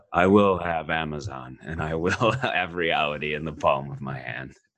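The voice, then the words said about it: Imitates another person's voice. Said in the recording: “That's not a bad impression.”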